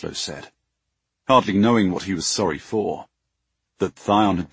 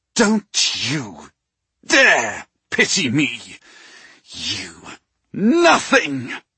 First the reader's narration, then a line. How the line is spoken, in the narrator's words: Thion snarled, with such venom in his voice